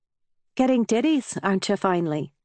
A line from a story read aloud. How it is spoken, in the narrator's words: said Cora